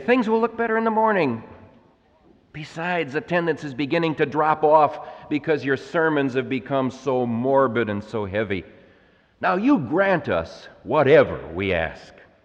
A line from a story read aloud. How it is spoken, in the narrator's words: Impatiently, they interrupt him and they say